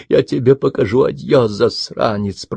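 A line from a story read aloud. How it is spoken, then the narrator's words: Muttered. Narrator (Russian): пробормотал он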